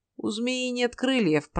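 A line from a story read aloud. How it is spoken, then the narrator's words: Grumbling. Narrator (Russian): проворчал Сим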